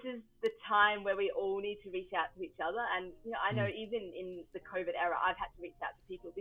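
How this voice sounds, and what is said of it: Australian accent, upbeat voice. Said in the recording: “There's a spring in your voice. And I don't know if it's the Australian accent”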